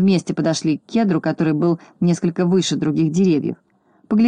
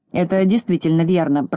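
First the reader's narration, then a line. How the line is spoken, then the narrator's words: Grumbling. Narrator (Russian): проворчал Крабс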